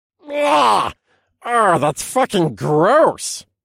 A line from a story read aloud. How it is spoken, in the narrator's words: Alexander spat in my head